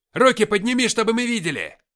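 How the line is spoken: Barked order. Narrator (Russian): рявкнул ближайший

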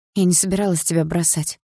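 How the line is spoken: Breathy exhale. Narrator (Russian): выдохнула я

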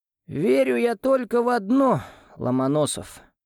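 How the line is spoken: Sighing professor. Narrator (Russian): вздохнул профессор

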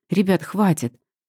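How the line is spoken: Sharp interjection. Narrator (Russian): Резко вклиниваюсь я

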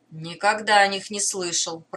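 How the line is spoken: Grumbling. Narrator (Russian): проворчал Дукакис

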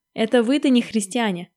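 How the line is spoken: Laughing. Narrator (Russian): засмеялась красная собака

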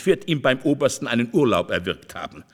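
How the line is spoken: Said laughing. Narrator (German): meinte Olivo lachend

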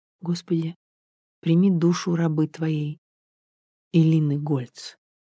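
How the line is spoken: Very quiet plea. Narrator (Russian): тихо-тихо попросила

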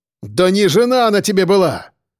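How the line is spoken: Barked. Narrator (Russian): рявкнул Черноусов

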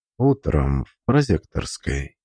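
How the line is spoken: Quiet. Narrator (Russian): сказал тихо

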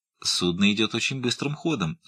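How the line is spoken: Calm objection. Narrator (Russian): спокойно возразила миссис Уиллис

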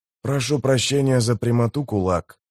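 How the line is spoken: Muttering. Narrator (Russian): пробормотал Кеннеп

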